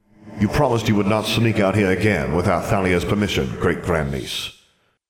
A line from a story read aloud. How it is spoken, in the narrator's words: he said sternly